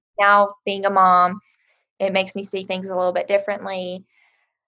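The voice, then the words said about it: West Virginia accent. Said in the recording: “So I'm from West Virginia, hence the accent. That's makes it very obvious.”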